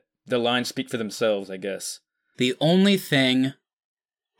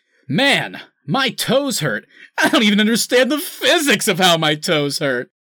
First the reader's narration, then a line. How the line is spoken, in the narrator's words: Cyborg laughing uncomfortably and going